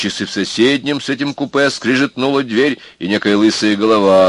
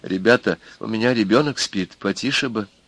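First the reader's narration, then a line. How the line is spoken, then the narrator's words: Quiet request, peasant woman. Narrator (Russian): какая-то женщина крестьянского облика высунулась и попросила негромко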